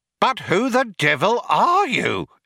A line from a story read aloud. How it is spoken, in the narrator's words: exclaimed an outraged Fuchs